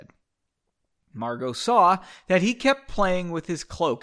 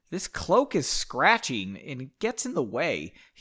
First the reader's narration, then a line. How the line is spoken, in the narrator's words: he said in an annoyed voice